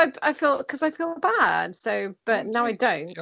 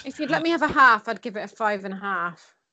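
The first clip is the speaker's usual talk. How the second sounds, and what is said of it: Put-on Devon accent. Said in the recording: “In a really Devon accent. ... you did go a bit Devon there.”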